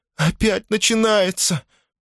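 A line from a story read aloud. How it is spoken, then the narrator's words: Groaning in pain. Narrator (Russian): простонала Корнелия, кривясь от боли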